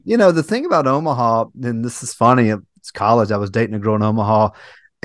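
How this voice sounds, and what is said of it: Mild Southern US accent. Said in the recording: “my Southern accent is not that strong ... You got a little good one on you ... I do have a decent one”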